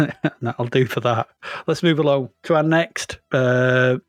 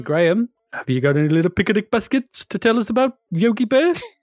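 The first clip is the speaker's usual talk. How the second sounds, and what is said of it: Imitates Yogi Bear cartoon voice. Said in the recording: “It's actually a pretty good impression of Yogi Bear”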